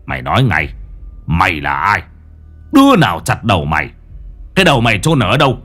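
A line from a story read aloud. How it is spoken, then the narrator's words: Angry growl. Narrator (Vietnamese): Lão Năm lúc này đã động nộ, não lão gằn giọng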